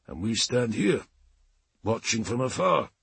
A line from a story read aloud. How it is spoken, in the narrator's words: Halfdan murmured